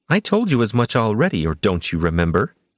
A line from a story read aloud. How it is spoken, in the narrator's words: Juliana snapped